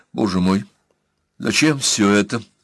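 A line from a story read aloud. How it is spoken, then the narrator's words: Trembling voice, holding steady. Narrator (Russian): спросила она, пытаясь справиться со своим дрогнувшим голосом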